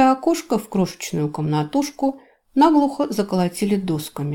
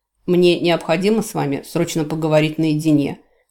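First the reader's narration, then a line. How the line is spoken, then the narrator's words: Curt, clipped. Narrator (Russian): отрывисто сказал ему комендант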